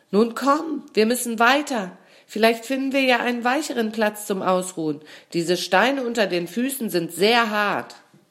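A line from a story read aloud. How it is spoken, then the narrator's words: Called. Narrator (German): Ihr Freund lief ein Stück vor und rief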